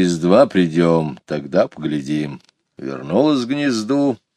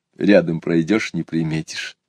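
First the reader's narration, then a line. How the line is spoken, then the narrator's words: Quiet young man. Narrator (Russian): негромко сказал один из ребят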